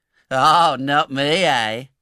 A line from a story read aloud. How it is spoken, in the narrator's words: sneered Noah